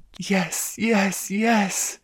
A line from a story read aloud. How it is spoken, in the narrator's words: moaned